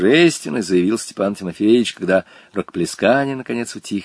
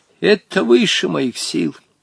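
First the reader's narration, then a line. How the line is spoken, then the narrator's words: Sad old man. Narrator (Russian): печально ответил старик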